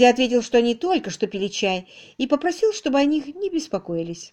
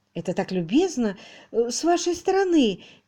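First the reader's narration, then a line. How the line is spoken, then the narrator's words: Hesitant. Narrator (Russian): неуверенно промолвила мисс Мерчисон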